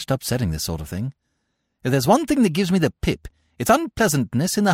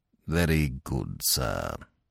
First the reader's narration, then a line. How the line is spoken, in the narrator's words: said Jeeves coldly